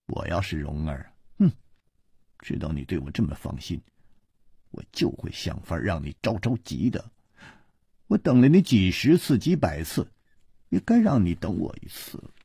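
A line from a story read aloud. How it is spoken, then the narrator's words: Sneering. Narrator (Chinese): 他撇了撇嘴冷笑着说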